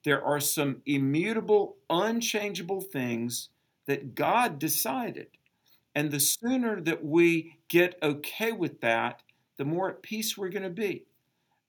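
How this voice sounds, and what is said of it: Southern American accent. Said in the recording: “I have a Southern accent because I was born in the South... they make fun of me because of my Southern accent”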